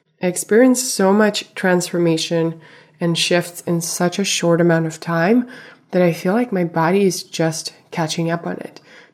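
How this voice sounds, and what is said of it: Slightly raspy voice. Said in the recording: “My voice is a little raspy this week because I'm recovering from a cold”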